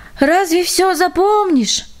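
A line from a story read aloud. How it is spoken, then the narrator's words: Sighing. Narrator (Russian): вздохнул он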